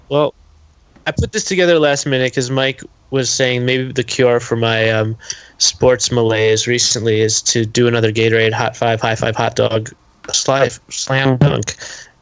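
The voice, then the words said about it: Low-energy voice, sounds like a cold. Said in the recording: “maybe you need more Gatorade. I mean, the energy levels are just. That's brutal today... I'm a little like under. I have a little cold.”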